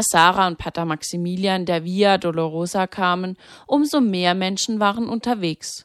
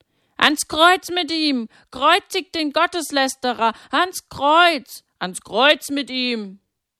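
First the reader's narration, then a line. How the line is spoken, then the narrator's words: Crowd screaming repeatedly. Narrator (German): Die Feinde Jesu hörten nicht auf, das zu schreien, und immer mehr ließen sich von ihnen anstecken und schrien mit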